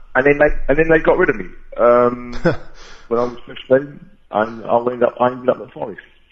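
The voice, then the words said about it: London accent. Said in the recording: “from your accent, you're a London boy”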